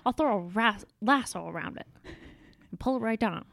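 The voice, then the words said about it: Imitates another person's voice. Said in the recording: “You did a good impression.”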